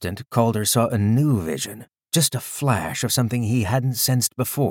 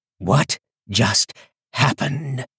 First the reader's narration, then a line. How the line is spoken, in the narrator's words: Foster asked, his voice shaken